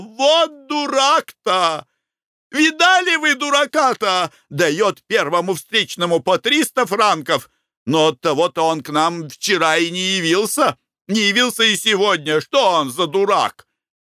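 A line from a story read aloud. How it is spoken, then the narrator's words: Exclaiming. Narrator (Russian): Глафира Семеновна воскликнула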